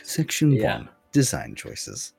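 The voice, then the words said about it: Deep bass-heavy voice close to mic. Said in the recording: “bass boosted ... I'll just swallow the mic for that one ... there's my bass boost”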